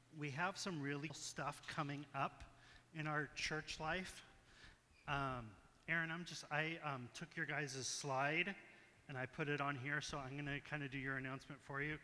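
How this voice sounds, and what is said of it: Scratchy, rough voice. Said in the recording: “I'm a little bit scratchy this morning myself ... If my voice sounds a little bit rough”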